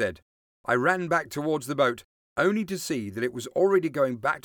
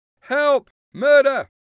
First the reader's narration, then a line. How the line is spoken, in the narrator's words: shouted